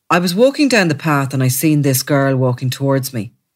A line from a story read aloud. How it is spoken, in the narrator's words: he said, speaking in a flat tone